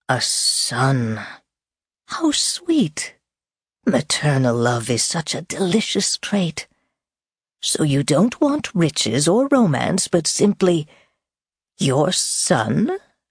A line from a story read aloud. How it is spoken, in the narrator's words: he said the word, hissing it, sneering it